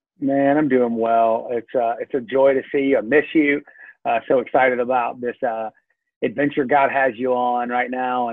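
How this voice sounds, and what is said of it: Southern US accent. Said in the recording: “my Southern accent ... the good old Southern accent from a Georgia boy”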